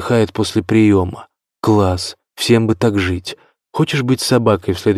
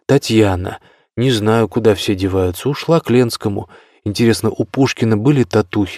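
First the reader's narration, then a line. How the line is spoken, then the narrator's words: Sighing. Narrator (Russian): вздохнула Фортуна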